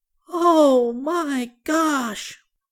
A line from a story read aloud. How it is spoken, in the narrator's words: cried Benny